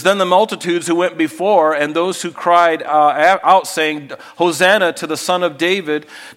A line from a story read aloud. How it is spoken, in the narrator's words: they shout out